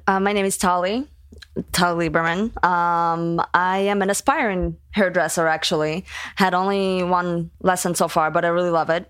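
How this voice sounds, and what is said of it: Foreign accent. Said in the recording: “the other voice that you hear with an accent”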